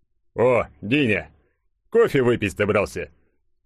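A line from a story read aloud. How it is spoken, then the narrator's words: Strong male voice. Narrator (Russian): Произнес кто-то сильным мужским голосом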